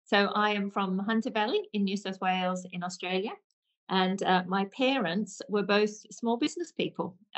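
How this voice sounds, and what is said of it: Australian accent. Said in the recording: “as people might be able to pick up on the accent ... my Aussie accent has definitely not left me”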